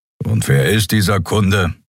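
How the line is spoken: Grumbling. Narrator (German): brummte Keru

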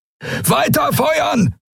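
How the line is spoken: Shouted. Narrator (German): brüllte Telios

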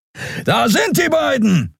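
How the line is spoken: Inhuman voice calling. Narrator (German): rief eine nichtmenschliche Stimme

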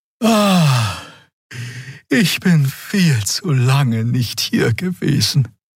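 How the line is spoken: Sigh. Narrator (German): seufzte Xea

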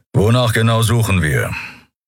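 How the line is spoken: Growled. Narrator (German): hörte Endriel Keru hinter sich knurren

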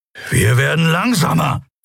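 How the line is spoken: Hissing. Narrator (German): fauchte Kero

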